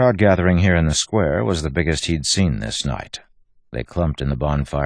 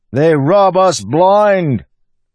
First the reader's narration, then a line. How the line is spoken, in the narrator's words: the man shouted